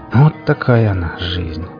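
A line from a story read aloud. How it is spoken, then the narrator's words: Sighing, mournful. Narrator (Russian): вздохнул барин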